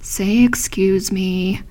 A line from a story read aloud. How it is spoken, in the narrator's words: they would murmur